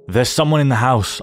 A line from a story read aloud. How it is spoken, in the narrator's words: I barked, with extreme adrenaline coursing through me